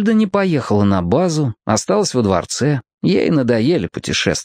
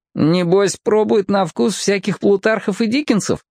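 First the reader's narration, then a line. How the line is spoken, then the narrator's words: Giggle. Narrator (Russian): хихикнул Том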